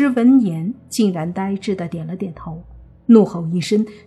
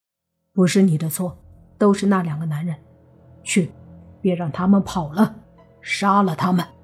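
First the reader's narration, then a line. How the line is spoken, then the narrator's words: Calm, flat. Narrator (Chinese): 莫凡 淡淡的说道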